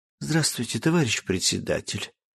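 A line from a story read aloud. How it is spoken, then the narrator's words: Trembling voice. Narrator (Russian): дрожащим голосом обратилась ко мне Полина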